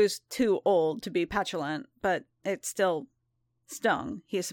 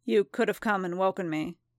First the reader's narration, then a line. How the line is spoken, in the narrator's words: he said